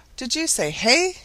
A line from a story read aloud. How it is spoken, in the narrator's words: exclaimed